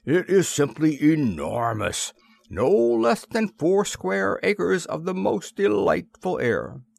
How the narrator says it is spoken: exclaimed the Lord High Mayor

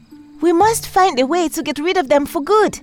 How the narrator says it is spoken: she begged

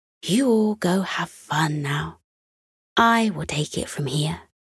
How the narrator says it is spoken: whispered

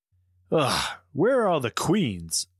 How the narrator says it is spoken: Paige grumbled

